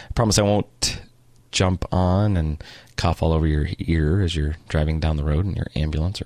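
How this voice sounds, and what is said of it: Deeper than normal, unwell voice. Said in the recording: “I have a bit of a deep voice, deeper than normal maybe, just a little bit of a bronchitis I've been fighting for a few weeks”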